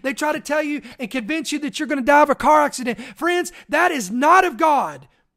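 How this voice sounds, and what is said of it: Passionate yelling. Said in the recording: “"Why are you yelling?" Because I am passionate about this.”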